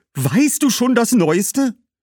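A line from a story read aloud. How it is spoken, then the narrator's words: Call. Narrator (German): rief Herodias Cassia zu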